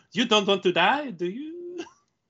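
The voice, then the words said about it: Put-on French accent. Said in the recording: “she speaks with a French accent”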